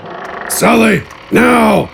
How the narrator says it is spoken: Gafgarn yelled as he ran

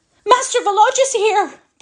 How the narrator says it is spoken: bawled Natalia

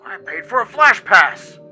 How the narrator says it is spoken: yelled

